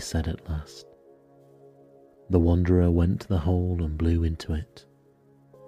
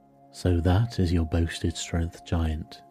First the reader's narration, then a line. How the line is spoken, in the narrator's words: he said